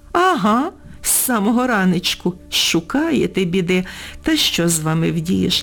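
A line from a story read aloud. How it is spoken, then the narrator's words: Woman suddenly laughing. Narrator (Ukrainian): Раптом розсміялася вона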